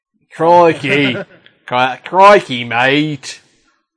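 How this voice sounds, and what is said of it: Deliberately bad Australian accent. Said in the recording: “really South African accent ... Really bad accent ... supposed to be Australian ... the accent was so bad”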